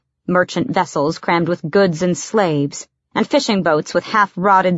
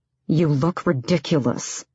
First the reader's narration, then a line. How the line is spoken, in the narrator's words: said through his teeth